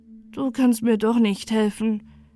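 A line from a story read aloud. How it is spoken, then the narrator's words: Sad. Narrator (German): sagte traurig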